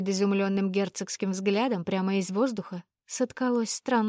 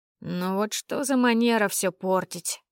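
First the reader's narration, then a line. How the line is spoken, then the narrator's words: Displeased bass grumble turning thin. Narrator (Russian): Недовольно проворчал таинственный бас, постепенно превращаясь в тоненький голосок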